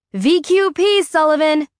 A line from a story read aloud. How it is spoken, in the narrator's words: She shouts